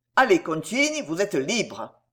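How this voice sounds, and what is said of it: Haughty, commanding tone. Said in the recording (French): “avec un air de souveraine hauteur, avec un accent d'indicible autorité”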